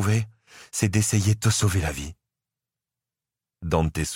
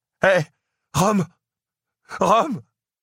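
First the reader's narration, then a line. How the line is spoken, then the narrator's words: Tearful exclamation. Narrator (French): s'écria Dante, les larmes aux yeux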